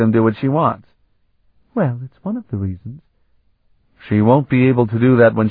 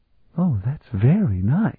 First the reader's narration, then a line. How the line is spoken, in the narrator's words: Sephrenia murmured